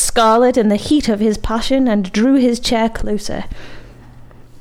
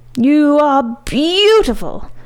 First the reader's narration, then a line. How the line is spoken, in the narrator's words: howled the Scarlet Bone